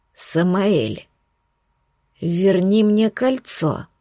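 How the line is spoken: Hoarse demanding elf. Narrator (Russian): хрипло потребовал эльф

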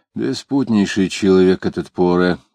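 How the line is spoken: Very quiet. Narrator (Russian): продолжал Иноков говоря уже так тихо

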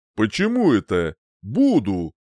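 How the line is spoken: Snorting smirk. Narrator (Russian): хмыкнул

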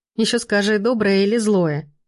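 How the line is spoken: Giggling. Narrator (Russian): хихикнула Катька

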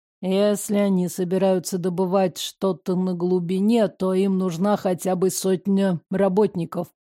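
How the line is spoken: Mumble. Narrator (Russian): пробормотал Римас

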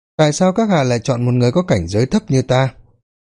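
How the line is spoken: Smiling. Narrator (Vietnamese): Lâm Phong mỉm cười rồi nói tiếp

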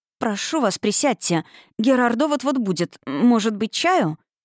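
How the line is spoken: Slight stutter. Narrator (Russian): бедняжка начала слегка заикаться

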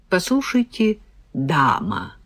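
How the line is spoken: Drawling. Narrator (Russian): протянула Регина

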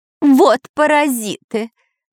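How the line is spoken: Parrot shouting. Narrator (Russian): прокричал попугай

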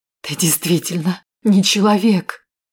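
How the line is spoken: Strained wheezing voice. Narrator (Russian): послышался сдавленный хрипящий голос Урсулы Абрамс

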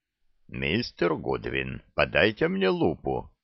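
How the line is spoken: Halting, strangled voice. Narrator (Russian): Он запнулся и произнес каким-то придушенным голосом

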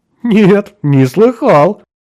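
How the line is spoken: Hearty laughter. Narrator (Russian): Карло от всей души расхохотался

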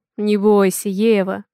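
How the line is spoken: Soft laughter. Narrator (Russian): Мягко рассмеялся Авалон

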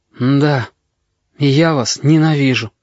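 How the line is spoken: Tired boy's voice. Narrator (Russian): мальчишка мокрое лицо сказал устало

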